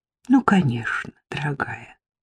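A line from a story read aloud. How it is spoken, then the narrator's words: Affectionate reply. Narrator (Russian): ласково откликнулась Саффи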